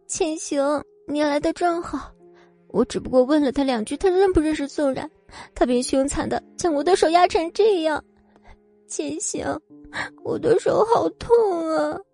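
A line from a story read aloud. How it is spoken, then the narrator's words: Tearful. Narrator (Chinese): 说着，眼泪就真下来了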